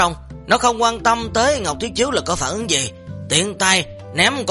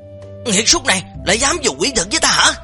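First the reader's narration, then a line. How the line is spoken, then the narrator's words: Loud furious shout. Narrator (Vietnamese): Bùi Lăng lớn tiếng giận dữ mà hét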